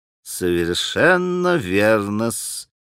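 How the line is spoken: Muttered, breaking, smirking voice. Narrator (Russian): пробормотал уже пресекшимся голосом Смердяков, гнусно улыбаясь

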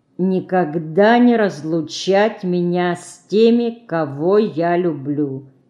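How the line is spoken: Slow reading aloud. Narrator (Russian): Сестра медленно прочла вслух

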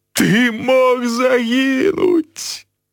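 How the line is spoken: Sobbing. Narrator (Belarusian): усхліпаў Хагрид

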